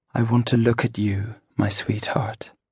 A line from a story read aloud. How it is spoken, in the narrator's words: She gently pulled herself away and said